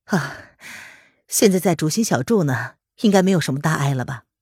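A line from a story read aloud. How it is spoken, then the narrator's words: Calm, detached reply. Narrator (Chinese): 红娘随即才淡淡的开口回答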